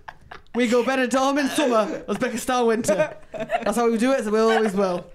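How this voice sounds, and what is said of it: Put-on Yorkshire accent. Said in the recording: “in Yorkshire accent”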